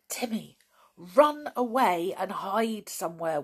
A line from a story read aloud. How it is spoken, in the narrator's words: whispered George suddenly